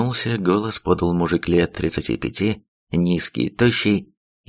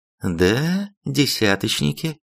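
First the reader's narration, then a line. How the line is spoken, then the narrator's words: Calm reply. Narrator (Russian): спокойно ответила командир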